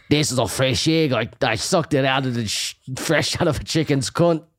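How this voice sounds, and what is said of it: Bad Scottish accent with lisp. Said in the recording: “Like a Scottish man? ... like Mike Myers is bad Scottish ... a Scottish man with a lisp”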